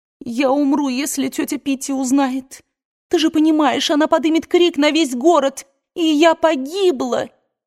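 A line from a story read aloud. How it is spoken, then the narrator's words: Sobbing. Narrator (Russian): рыдала Мелани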